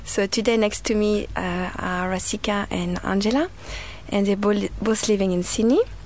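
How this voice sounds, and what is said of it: French accent. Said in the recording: “if you haven't noticed my accent, I was born in France.”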